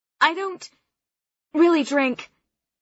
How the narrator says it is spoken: I sputter

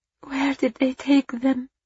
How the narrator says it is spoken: She cried, the wail only a whisper against the wall of his chest

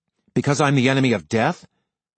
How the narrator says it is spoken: Cole snapped

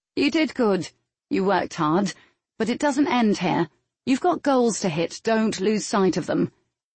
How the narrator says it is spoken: saying in a flat tone

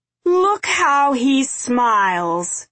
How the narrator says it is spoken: he shouted

